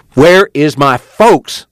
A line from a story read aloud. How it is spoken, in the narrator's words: Joad spoke angrily